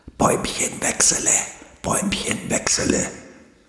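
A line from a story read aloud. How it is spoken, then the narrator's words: Hissing chorus of leaves. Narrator (German): zischelten nun auch alle Blätter ringsum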